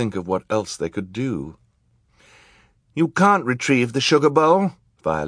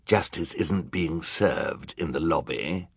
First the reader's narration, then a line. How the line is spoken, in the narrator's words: Olaf growled